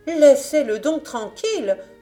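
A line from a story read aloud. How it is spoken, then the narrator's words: Indignant mother exclaiming. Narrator (French): s'écria la mère indignée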